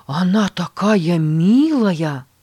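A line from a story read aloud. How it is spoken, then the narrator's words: Boy's delighted exclamation. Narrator (Russian): восхищенно воскликнул мальчик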